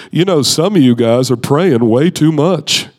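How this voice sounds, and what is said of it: Imitates another person's voice. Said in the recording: “my best Rick Joyner impression ... that's kind of how he talks.”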